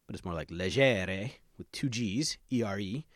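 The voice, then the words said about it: Exaggerated cartoonish Italian accent. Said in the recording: “That was my best Super Mario Italian accent right there.”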